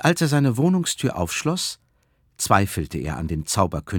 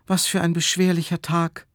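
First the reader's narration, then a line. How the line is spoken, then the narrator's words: Sighing. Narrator (German): seufzte er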